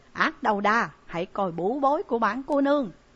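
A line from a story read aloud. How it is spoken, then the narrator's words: Shouted. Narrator (Vietnamese): Trại Nhiếp Ẩn hét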